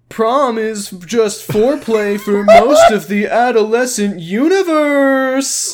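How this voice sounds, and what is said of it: Imitates another person's voice. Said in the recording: “here is my impression of Kyle doing an impression of what Josh said. ... now I'll do the voice, too. ... Wow, that's perfect.”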